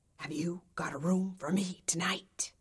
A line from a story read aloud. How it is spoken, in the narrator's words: whispered